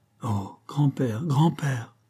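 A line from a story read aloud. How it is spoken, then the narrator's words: Murmured. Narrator (French): murmura-t-elle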